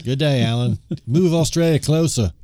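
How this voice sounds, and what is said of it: Put-on Australian accent. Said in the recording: “our dumb Australian accent”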